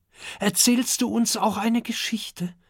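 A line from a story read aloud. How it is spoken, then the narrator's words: Excited question. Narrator (German): fragt Kokosnuss aufgeregt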